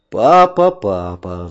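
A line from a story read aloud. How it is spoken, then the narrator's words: Sigh. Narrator (Russian): вздохнул я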